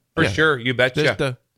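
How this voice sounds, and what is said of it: Good put-on Minnesota accent. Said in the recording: “Do they talk like that in Minnesota or Canada? ... North Dakota and Minnesota have that. ... There's the accent. ... That was a good accent.”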